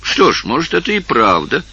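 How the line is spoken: Pleased laughter. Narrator (Russian): засмеялся Валентино, довольный

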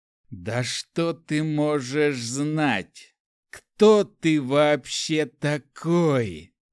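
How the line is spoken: Wild growl. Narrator (Russian): дико зарычал небесный монарх

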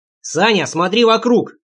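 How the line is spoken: Shouting. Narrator (Russian): крикнул я

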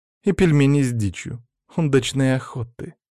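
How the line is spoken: Sly, snide. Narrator (Russian): ехидно улыбнулась официантка

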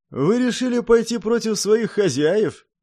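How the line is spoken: Snide question. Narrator (Russian): ехидно спросил изгой

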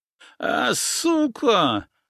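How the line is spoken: Pained whimper. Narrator (Russian): заскулил тот, жалея свое лицо

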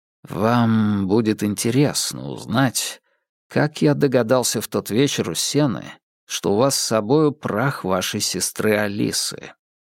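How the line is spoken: Very quiet. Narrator (Russian): очень тихо проговорил Холмс

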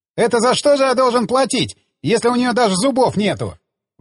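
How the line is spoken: Exclaimed. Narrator (Russian): воскликнул он

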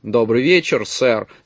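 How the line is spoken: Plain. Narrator (Russian): сказал он

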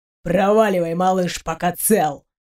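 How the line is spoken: Deep bass threat. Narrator (Russian): пробасил он

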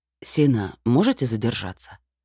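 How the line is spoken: Calm with an undertone. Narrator (Russian): Голос ректора прозвучал спокойно, но в нем явно читалось

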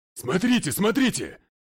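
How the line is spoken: Yelled. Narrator (Russian): завопил начальник тюрьмы

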